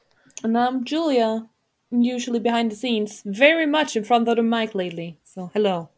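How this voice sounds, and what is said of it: Speaks with a noticeable accent. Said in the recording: “We really like your accent.”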